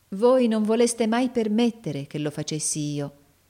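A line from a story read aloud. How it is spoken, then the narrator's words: Lovingly reproachful. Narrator (Italian): disse Nicola in tono di amorevole rimprovero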